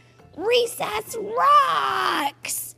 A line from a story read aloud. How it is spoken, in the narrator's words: bellowed Clark the Shark